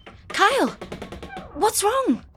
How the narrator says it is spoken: Mum asked, her voice urgent and panicked

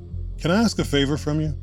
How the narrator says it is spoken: Jeff sighed

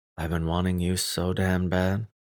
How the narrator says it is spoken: I whispered

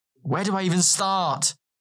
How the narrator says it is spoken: he blurted out

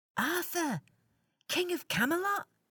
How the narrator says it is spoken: He shouted in excitement

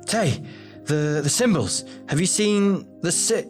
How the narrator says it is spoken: He stammered out

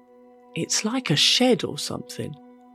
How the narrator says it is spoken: I muttered

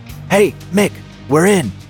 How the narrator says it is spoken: Jeff whispered

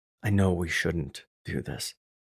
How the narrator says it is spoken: I whispered

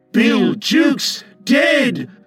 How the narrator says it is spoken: cried the startled pirates

